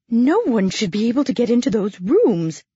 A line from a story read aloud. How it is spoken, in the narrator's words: exclaimed the matron